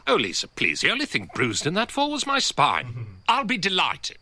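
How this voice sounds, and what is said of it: Very posh upper-class English accent. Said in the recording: “He does have a very posh accent ... it is a very upper class accent.”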